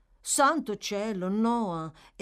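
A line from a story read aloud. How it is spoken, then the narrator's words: Exclaimed. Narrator (Italian): esclamò Charlotte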